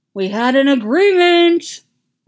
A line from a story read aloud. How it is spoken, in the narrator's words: yells